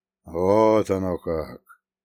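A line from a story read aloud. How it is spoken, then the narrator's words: Drawling. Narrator (Russian): протянул он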